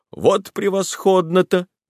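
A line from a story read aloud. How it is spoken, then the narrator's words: Exclamation. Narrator (Russian): воскликнул он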